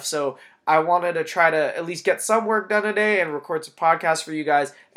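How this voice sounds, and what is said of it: Congested voice from a cold. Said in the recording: “this episode at all sounded a little funky with my voice ... I have a little bit of a cold, runny nose”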